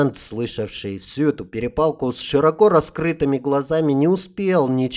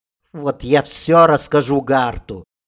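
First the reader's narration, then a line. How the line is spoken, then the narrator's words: Angry promise. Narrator (Russian): сердито пообещала Лама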